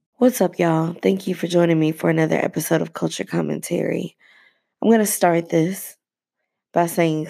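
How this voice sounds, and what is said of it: Unclear, under-the-weather voice. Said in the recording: “sorry for my voice. I think I may be coming down with a little something ... there will be days that you don't get crystal clear for me”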